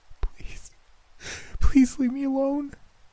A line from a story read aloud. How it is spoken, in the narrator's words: Ruby begged, fighting back tears